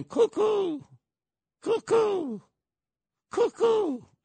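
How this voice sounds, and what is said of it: Imitates pigeon cooing sounds. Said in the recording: “your imitation of the pigeons”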